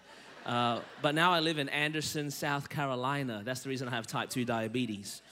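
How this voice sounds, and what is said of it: Australian accent. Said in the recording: “I was born in Melbourne, Australia, and that's the reason my voice is this way”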